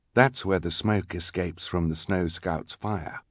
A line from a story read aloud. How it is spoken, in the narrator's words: whispered the mysterious scout